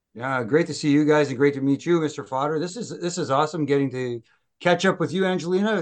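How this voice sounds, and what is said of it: Strong Canadian accent. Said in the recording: “the depth of your Canadian accent that I can hear right now”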